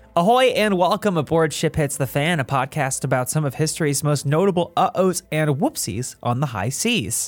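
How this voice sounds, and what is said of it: Slightly Australian-sounding accent. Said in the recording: “You sounded kind of Australian there.”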